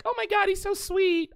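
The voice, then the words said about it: Put-on girly voice. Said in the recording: “Oh, I have my girl voice back ... I can't believe I have my girl voice back.”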